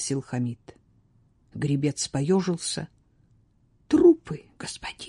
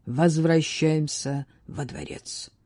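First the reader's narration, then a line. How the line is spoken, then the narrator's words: Tired curt remark. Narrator (Russian): бросил он устало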